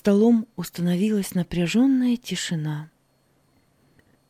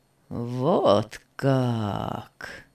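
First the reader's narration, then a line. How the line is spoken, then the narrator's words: Icy voice. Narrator (Russian): произнес Беннет ледяным голосом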